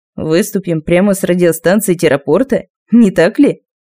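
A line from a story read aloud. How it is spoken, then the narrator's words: Mocking remark. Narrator (Russian): насмешливо заметил Али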